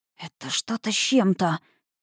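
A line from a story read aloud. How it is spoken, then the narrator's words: Muttering. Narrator (Russian): пробормотал Дан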